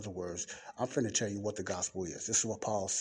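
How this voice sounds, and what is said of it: Usual voice. Nothing is said of it.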